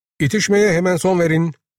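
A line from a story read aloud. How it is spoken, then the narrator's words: Angry shout. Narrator (Turkish): diye öfke içinde bağırdı muhasebeci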